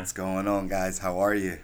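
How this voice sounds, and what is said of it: Smooth radio announcer voice. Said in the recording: “that radio voice ... you must be serenading some of your clients out there with that sound. they love the voice.”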